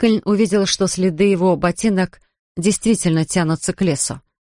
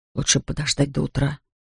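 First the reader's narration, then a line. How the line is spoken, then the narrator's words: Whisper. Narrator (Russian): прошептал он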